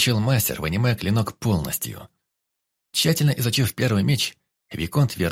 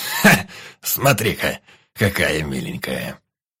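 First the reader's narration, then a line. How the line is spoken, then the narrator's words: Snorting chuckle. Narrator (Russian): Хмыкнул Ханас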